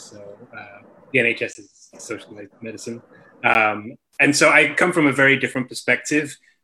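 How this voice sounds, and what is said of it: English accent. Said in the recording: “the cool accent ... I have a cool accent because I was born in England”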